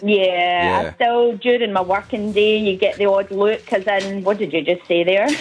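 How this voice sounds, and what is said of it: Mild Scottish accent. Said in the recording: “Scottish lass... I love the Scottish accent... it's not as thick as, I thought maybe 4 years it'd be”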